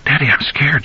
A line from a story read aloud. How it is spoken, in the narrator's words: whispered